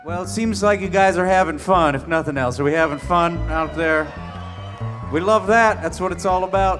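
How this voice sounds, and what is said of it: Put-on Southern accent. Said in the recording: “I'm talking in a southern accent for no reason.”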